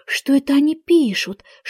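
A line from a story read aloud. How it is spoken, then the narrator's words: Whispered question. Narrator (Russian): шепотом спросила Алиса у Грифона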